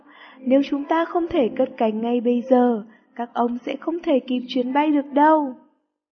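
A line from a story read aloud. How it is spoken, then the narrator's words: Shouting pilot. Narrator (Vietnamese): Viên phi công hét lên với ông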